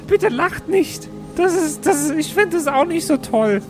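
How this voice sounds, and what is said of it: Squeaky, strained high-pitched voice. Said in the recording (German): “Der Rauch muss sich auf seinen Vokaltrakt ausgewirkt haben... Das ist ja grausam anzuhören... Du klingst ja. wie der fucking Pumuckl”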